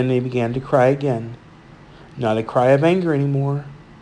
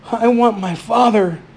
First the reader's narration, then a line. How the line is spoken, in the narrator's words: cried